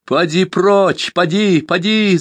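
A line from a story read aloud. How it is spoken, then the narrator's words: Shouting. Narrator (Russian): закричала Тайка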